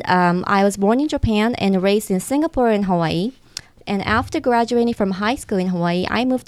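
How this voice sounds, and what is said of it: Japanese accent in English. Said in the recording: “I love the accent ... maybe from my accent, English is my second language ... Japanese”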